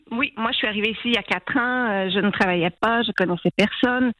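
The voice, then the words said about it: Light Québécois French accent. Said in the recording (French): “votre léger accent québécois”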